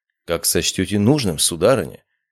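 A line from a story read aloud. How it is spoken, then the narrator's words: Calm friendly reply. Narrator (Russian): Спокойно ответил я и приветливо улыбнулся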